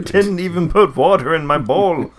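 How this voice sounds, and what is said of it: Odd character voice, failed Russian accent. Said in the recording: “I tried to get away from my Russian accent. That's what came out.”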